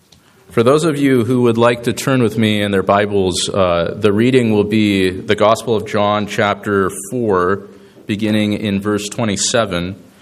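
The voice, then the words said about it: Voice affected by a cold. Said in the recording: “Excuse my voice. I'm sort of been nursing a cold this last week”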